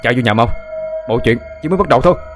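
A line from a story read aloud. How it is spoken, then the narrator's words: Urgent loud shout. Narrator (Vietnamese): Anh Út vội hét lớn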